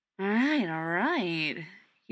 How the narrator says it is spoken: he drawls

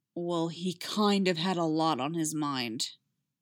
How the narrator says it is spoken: Zeb growled

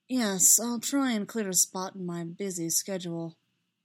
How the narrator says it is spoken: Kenobi said dryly

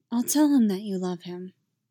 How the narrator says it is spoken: Amidala said quietly

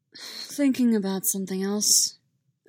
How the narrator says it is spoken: Obi-Wan sighed

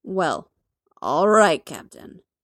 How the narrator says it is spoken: Fury drawls

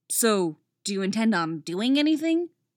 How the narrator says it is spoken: Dick asks

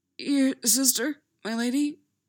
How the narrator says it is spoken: he croaks

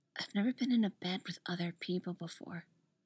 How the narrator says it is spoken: she whispers

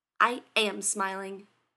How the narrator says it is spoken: he snapped

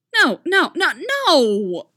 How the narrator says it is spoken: Casey squeals

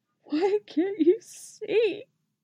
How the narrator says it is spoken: Sabine pleaded, her voice breaking

